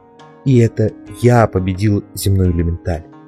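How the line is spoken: Even, modest tone. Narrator (Russian): продолжал он ровным голосом, без тени хвастовства

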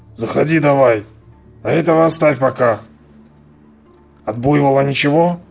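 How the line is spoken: Husky voice. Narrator (Russian): кто-то с хрипотцой проговорил

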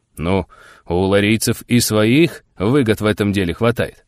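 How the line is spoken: Grumbling. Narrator (Russian): проворчал Никита Андреевич

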